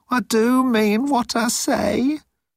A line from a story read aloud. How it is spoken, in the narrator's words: said Moan miserably